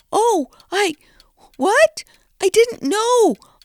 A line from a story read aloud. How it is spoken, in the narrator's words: Oni stammered